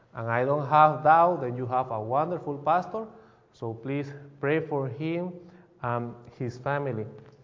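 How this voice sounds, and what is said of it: Bolivian Spanish-accented English. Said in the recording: “Probably you can hear my accent. I am not from the United States. I am from Bolivia, and we speak Spanish.”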